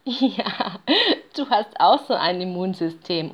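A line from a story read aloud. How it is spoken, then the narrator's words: Mother bear laughing, interrupting. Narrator (German): unterbricht ihn die Bärenmutter lachend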